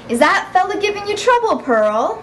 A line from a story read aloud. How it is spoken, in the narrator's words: called out